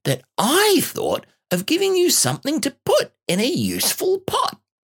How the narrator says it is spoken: said Piglet happily

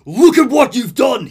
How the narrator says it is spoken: he barks

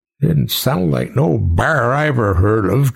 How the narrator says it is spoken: Jedediah grumbled

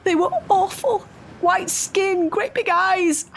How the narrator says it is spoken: sobbed in horror

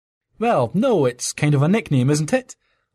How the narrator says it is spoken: chuckled

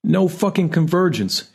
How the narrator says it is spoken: she yells from the living room

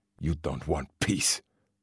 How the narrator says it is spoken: the man spat

